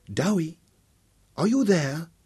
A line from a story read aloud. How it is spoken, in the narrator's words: Her voice was more husky than he remembered